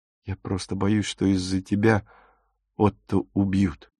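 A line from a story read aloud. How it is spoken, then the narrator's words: Mumble. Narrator (Russian): пробормотал он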